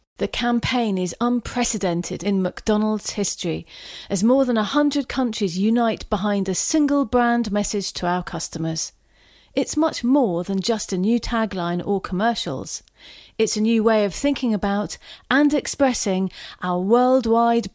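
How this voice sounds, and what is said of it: Corporate executive character voice. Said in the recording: “can you do me an executive VP voice?”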